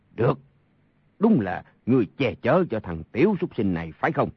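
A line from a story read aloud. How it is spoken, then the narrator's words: Angry speech. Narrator (Vietnamese): Sa Thông Thiên tức giận nói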